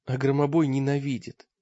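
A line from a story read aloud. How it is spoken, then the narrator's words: Weak voice. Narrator (Russian): добавил Таргитай слабым голосом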